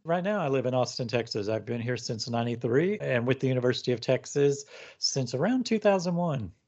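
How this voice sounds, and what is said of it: Great radio voice. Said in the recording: “you've got a great radio voice that puts my voice to shame”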